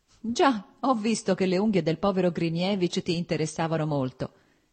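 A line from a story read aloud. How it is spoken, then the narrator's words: Laughing. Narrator (Italian): disse ridendo Stepan Arkadich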